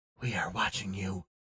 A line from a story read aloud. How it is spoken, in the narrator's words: the eyes whispered